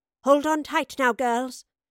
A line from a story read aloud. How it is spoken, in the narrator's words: called out to the terrified